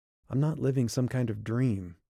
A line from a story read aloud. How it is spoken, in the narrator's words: she said, keeping her voice quiet and even